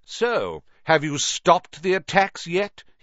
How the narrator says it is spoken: he sneered

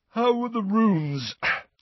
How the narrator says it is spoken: said Ron, yawning and stretching

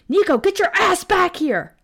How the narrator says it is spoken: I screamed

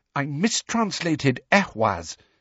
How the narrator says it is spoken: said Hermione furiously

